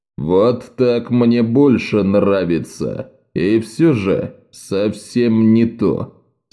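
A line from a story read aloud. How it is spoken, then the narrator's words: Plain. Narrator (Russian): сказал он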